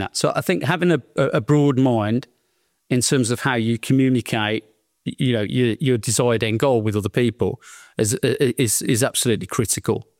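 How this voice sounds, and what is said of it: Strong Birmingham English accent. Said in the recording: “I've got a terrible, you know, slap bang in the middle Birmingham accent ... It's like a Peaky Blinder on steroids.”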